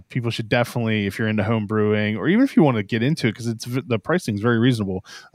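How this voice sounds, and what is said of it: Maryland accent. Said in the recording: “Love your Maryland accent.”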